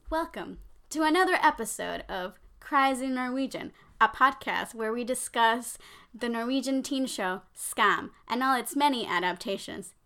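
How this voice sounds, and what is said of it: Polished podcast-host voice. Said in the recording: “I'm trying to do my best podcast voice.”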